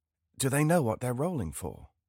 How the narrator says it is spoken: I leaned over to Irvin and whispered

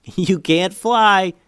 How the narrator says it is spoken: yelled Eli

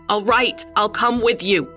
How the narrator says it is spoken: I shouted with all the voice I had in my body

